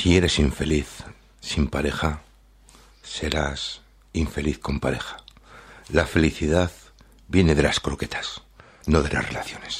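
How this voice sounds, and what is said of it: Put-on late-night radio announcer voice. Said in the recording (Spanish): “tengo que poner voz radiofónica ... Locutor de las 3 de la mañana.”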